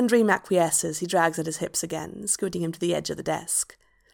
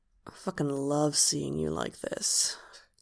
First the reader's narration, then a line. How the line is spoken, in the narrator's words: Hob murmurs